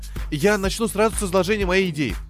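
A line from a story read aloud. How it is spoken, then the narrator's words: Excited blurt. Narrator (Russian): взволнованно выдал Орли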